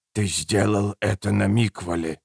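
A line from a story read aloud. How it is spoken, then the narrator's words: Quiet hiss. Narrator (Russian): тихо прошипел Убер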